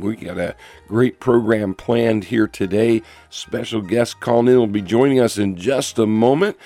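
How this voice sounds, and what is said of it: Rough, hoarse voice. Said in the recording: “Forgive me for my voice here today. I had a little summer something going on, and my voice is a little rough here”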